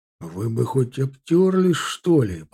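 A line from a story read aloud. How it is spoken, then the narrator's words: Angry hiss. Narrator (Russian): прошипел рассерженно майор Кетлер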